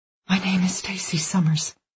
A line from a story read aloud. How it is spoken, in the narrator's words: she whispers